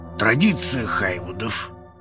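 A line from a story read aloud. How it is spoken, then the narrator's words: Hoarse reply. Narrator (Russian): хрипло отозвался он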